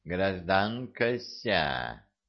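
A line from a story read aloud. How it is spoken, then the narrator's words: Mechanical singsong voice. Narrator (Russian): нараспев произнес механизм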